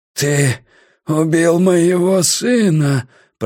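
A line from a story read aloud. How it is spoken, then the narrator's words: Hoarse rasp. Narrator (Russian): прохрипел Улле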